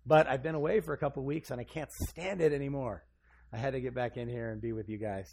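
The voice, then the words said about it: Hoarse, worn-out voice from illness. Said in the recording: “I've been a little bit sick ... My voice is shot.”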